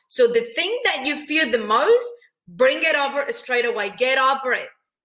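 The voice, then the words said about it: Mexican accent in English. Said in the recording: “I'm from Mexico, in case you're trying to guess the accent ... your accent is so unique ... this woman has an accent”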